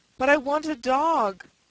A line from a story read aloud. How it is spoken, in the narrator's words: cried